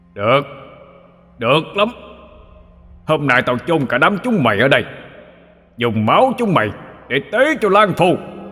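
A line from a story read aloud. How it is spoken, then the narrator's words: Owl's angry shout. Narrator (Vietnamese): Con cú quát lên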